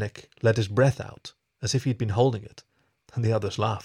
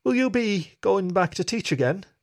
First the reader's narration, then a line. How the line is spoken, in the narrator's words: The wolf chuckled